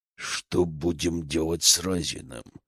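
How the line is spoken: Growled. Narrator (Russian): прорычал

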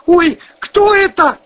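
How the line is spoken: Shrieking. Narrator (Russian): завизжал Вась-Вась

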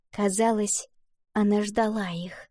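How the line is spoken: Smiling whisper. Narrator (Russian): прошептала Валентина, улыбаясь Луне

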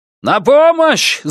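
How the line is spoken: Shouting for help. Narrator (Russian): закричал он

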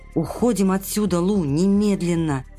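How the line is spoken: Muffled voice. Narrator (Russian): глухим голосом проговорил Кэш

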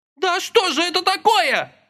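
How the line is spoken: Anguished wail. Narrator (Russian): страдальчески взвыла опомнившаяся первая Клавка

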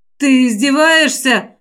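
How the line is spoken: Growling. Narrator (Russian): прорычал Койл

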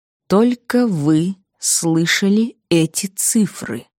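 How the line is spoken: Slow and deliberate. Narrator (Russian): медленно с расстановкой произнес Потлатый

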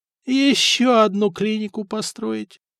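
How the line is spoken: Groaning. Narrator (Russian): простонал Леонтий

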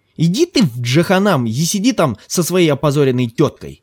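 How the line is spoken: Snapped over shoulder. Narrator (Russian): огрызнулся Ким через плечо

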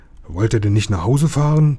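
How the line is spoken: Plain question. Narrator (German): fragte einer

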